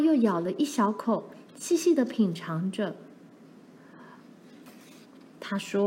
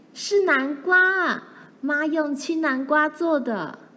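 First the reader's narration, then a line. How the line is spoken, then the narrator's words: Bursting out, nearly shouting. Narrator (Chinese): 玲玲再也忍不住了，她几乎大叫着说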